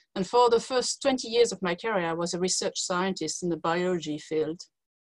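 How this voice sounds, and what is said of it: French accent in English. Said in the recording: “As you can hear from my accent, I'm not from the UK. I was born in France”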